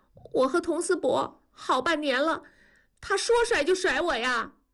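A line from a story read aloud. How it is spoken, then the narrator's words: Tearful girl. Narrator (Chinese): 女孩子带着哭声说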